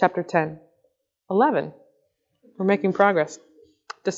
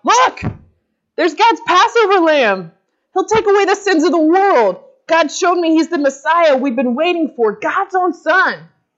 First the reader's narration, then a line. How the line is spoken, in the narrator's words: John saw Jesus coming toward him and yelled out